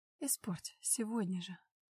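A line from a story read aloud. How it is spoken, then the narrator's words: Whisper. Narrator (Russian): шепнула снова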